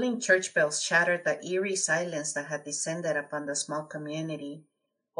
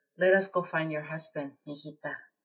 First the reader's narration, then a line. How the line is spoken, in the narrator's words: The old woman sighed with worry and whispered